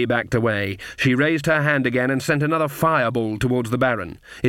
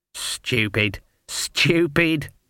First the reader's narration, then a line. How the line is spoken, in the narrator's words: muttered Granny